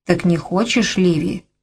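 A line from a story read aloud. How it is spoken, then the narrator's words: Whisper. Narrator (Russian): прошептал он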